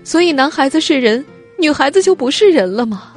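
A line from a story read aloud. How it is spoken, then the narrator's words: Crying question. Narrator (Chinese): 他哭着问养母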